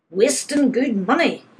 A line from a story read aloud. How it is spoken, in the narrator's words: he was roaring